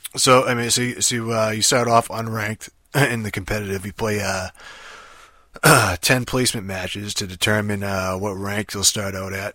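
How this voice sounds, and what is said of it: Rough, tired, quiet voice. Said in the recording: “my voice sounds like shit right now, more than usual ... instead of like my usual sexy I just woke up voice, you get the, hey, I worked all night and fucking chain smoke cigarettes ... try not to talk too loud”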